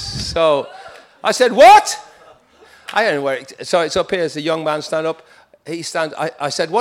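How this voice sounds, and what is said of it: Usual voice. Nothing is said of it.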